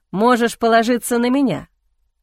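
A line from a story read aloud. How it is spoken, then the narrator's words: Snorting. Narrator (Russian): хмыкнул Эхран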